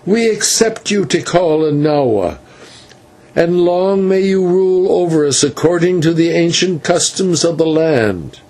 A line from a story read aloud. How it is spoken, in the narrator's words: the rest cried